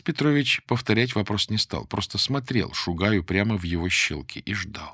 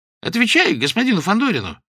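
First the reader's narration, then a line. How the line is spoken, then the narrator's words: Sharp shout from behind. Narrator (Russian): прикрикнул сзади Клочков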